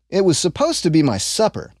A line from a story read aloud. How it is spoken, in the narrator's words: Ashlad replied